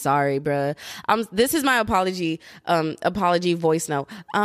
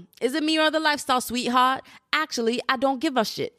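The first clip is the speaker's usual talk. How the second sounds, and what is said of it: Bad attempted British accent. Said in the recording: “I have horrible accents. For anyone who just got offended from the accent that I just tried to do ... that was horrible ... I'm so sorry to all the Brits out there who I have offended”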